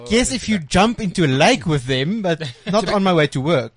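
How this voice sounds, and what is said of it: South African accent. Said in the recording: “my accent ... where are you from? South Africa”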